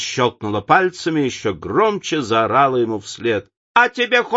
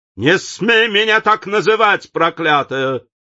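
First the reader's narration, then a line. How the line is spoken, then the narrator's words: Shouting back. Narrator (Russian): крикнул Дориан в ответ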